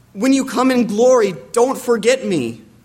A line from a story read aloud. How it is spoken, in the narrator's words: one of the thieves called out to Jesus